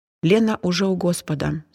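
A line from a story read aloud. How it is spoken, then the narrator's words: Calm. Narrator (Russian): спокойно сообщила Зина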